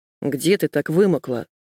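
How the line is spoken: Angry question. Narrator (Russian): спросил сердито

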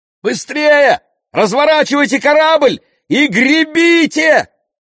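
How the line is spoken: Yelling. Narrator (Russian): завопил Ясон

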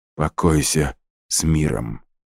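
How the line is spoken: Muttered. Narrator (Russian): пробормотал он

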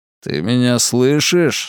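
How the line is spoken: Spiteful. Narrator (Russian): сказал тот, злобно взглянув на него

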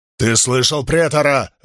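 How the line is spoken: Barked order. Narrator (Russian): рявкнул он трубачу

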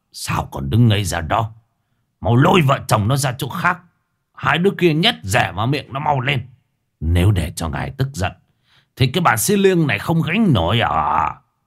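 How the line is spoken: Harsh, scowling old man. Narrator (Vietnamese): Mo Triềng cau mày, lão gằn giọng

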